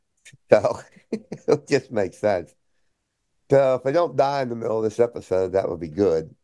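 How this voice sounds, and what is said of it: Hoarse, failing voice. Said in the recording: “I keep losing my voice”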